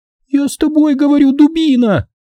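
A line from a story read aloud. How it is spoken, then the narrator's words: Yelling in face. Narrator (Russian): завопила мне в лицо блондинка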